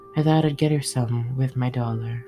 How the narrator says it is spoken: said Beth

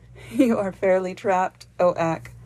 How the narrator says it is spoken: she exclaimed, laughing

